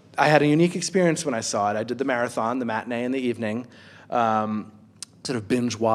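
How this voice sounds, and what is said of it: Usual voice. Nothing is said of it.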